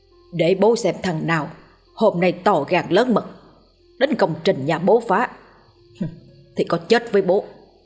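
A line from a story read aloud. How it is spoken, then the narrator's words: Muttering old man. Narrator (Vietnamese): ông vừa lẩm bẩm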